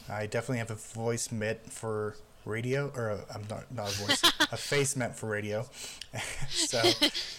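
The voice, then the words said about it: Pittsburgh accent. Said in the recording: “That Pittsburgh accent really hits home.”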